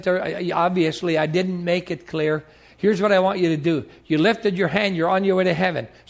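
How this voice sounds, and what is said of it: Upper Peninsula Michigan accent. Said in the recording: “It's probably my brogue. I'm from the UP of Michigan. And it's probably my accent.”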